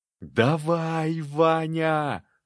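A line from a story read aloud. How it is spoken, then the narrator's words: Yelled. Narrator (Russian): заорал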